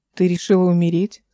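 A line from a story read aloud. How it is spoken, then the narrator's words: Plain. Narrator (Russian): спросил Ротоборд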